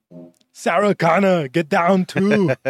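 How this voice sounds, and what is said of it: Arnold Schwarzenegger impression. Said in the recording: “I feel like Arnold Schwarzenegger is sitting next to me. ... He sounds like Arnold Schwarzenegger.”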